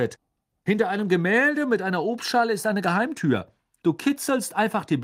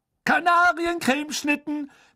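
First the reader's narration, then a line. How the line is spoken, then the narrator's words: Loud announcement to crowd. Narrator (German): verkündete Fred laut der aufgeregten Schülerschar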